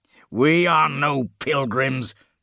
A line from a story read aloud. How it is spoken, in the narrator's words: Kadok snarled